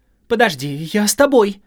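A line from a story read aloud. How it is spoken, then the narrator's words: Shouted. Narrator (Russian): крикнула Холли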